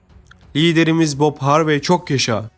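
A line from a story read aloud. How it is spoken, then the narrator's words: Shouting. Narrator (Turkish): diye bağırdı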